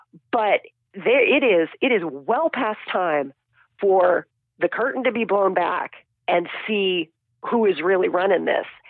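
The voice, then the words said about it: Raspy voice with a cold. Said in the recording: “in my raspy voice that has a cold”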